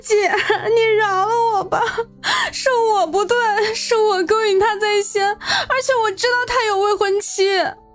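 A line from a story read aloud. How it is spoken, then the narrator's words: Crying out. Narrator (Chinese): 王冰冰哭喊道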